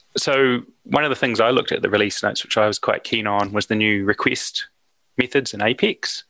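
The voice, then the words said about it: Distinctive non-American English accent. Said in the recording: “my accent will probably make me identifiable”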